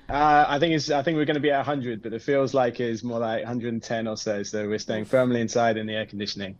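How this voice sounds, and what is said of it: Non-Texan accent. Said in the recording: “judging by your accent, you're not a Houston native”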